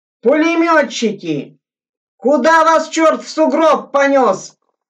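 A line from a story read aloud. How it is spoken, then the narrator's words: Strained shouting. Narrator (Russian): надсадно кричал Горбузенко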